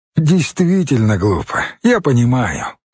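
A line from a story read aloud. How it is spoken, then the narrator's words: Said happily. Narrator (Russian): радостно сказал мачо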